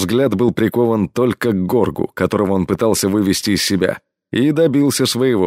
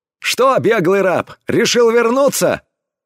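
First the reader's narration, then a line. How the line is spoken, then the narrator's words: Loud address. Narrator (Russian): громко обратился идущий им навстречу пират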